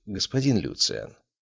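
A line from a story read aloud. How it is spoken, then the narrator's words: Soft interruption. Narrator (Russian): мягко перебил его управляющий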